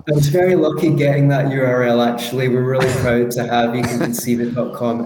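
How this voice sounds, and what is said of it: Strong Scottish accent. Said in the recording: “my Scottish accent is a little bit strong”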